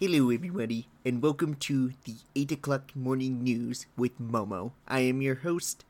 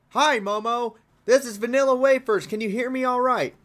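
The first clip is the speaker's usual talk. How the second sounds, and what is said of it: Yelling. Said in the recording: “stop yelling?”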